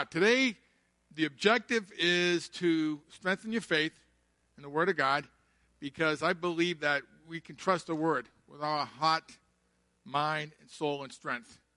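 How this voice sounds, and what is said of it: Southern US Georgia accent. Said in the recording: “you notice that accent's from Georgia”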